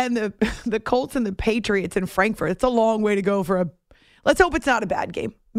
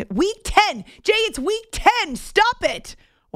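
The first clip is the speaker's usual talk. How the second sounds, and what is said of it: Yelling excitedly. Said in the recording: “Why am I yelling?”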